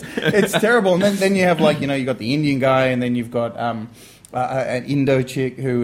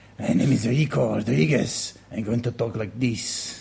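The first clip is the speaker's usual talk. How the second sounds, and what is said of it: Exaggerated fake Latino accent. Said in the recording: “guy who sounds like Antonio Banderas's, like, you know, third cousin removed, who's, you know, got no Latino in him at all”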